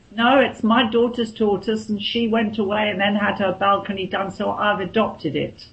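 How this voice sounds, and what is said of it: British accent. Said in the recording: “I love your accent. I just absolutely love it.”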